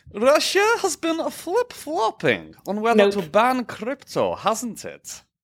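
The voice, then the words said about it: Put-on Russian accent, slightly Italian. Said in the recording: “Do I dare do an accent for that? ... when you speak the Russian with the accent. That's a little Italian, too.”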